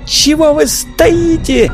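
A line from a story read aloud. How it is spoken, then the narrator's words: Shrieked question. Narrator (Russian): взвизгнула Вера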